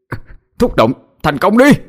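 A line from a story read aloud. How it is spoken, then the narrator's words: Straining shout. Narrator (Vietnamese): Cậu cố sức mà hét lên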